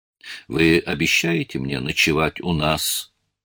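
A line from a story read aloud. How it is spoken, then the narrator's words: Plain question. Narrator (Russian): спросил Альман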